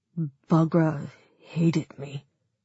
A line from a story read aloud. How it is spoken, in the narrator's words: David said quietly